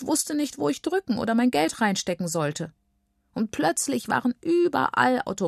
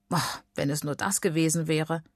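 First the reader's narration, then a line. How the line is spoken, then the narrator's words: Grandmother sighing. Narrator (German): seufzt Oma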